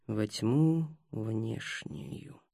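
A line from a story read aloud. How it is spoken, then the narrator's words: Muttering. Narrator (Russian): пробормотал Ростислав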